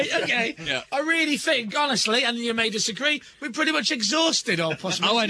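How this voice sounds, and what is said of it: Usual voice. Nothing is said of it.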